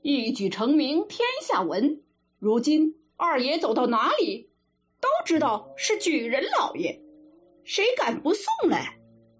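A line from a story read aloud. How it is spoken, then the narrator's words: Group speaking together. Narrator (Chinese): 大家都说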